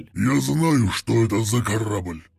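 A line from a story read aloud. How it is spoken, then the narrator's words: Growled. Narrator (Russian): прорычал Вознесенный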